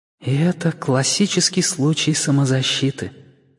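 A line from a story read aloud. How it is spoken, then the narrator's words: Whisper inside head. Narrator (Russian): прошептала Сэйди у меня в голове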